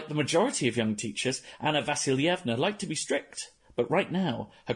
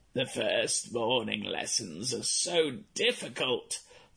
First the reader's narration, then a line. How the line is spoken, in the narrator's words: the old woman had sighed